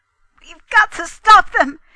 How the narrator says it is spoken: he cried

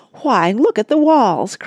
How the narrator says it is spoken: cried Oliver

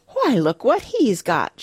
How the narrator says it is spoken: she exclaimed

